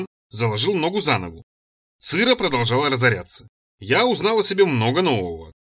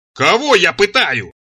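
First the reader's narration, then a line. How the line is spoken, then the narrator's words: Straining yell. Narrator (Russian): надсаживаясь, заорал я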